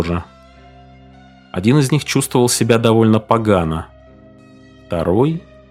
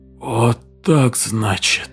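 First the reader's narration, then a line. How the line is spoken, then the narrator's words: Hoarse whisper. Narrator (Russian): хрипло прошептал он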